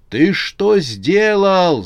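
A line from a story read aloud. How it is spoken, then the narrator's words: Yelling pastor. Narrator (Russian): заорал на него пастор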